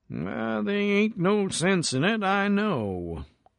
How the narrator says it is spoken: he mumbled apologetically

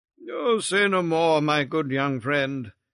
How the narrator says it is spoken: he said kindly

